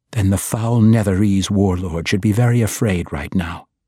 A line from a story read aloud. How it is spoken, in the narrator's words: Dahlia replied